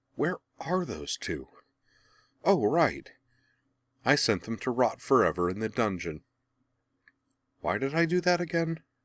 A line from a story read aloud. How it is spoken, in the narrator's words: Azula sighed